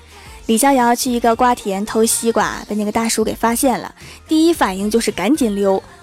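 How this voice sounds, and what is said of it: Usual voice. Nothing is said of it.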